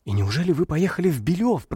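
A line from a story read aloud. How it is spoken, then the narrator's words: Whispered. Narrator (Russian): прошептал Феноплентов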